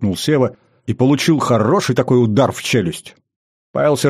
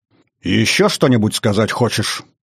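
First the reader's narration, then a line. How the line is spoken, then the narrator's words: Angry question. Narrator (Russian): Зло спросил он, разозленный не столько на дурное поведение внука, сколько на то, в каком виде он предстал перед этой девушкой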